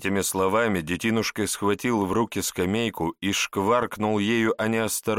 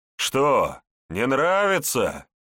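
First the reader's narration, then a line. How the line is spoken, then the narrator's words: Mocking laughter. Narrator (Russian): издевательски захохотал немец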